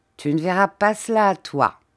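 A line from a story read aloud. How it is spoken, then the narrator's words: Plain. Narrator (French): dit-il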